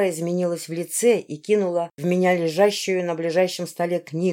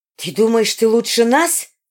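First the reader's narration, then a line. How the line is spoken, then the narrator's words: Shriek. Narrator (Russian): завизжала она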